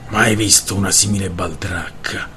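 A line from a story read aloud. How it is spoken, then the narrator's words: Grumbled. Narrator (Italian): brontolò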